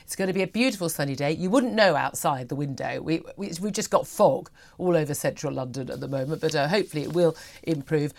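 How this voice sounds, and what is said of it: Slightly throaty voice from a cold. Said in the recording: “I've also got a little bit of fog in my head. I've got the summer cold lurking ... apologies for the slightly throaty voice”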